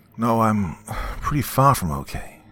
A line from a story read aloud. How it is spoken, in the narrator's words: said with an exhausted sigh